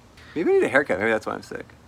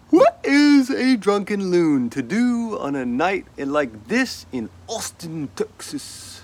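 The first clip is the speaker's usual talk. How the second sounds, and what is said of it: Put-on accent. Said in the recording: “That's the perfect accent.”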